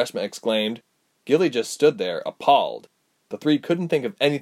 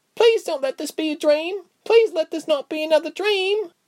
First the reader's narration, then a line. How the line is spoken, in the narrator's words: Gilly cried out